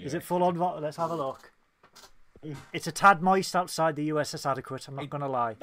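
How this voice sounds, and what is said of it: English accent. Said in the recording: “it sounds like I'm listening to my family with the English accent... if you've got our accent”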